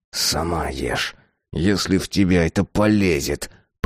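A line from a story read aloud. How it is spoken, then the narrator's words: Grumble. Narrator (Russian): проворчал он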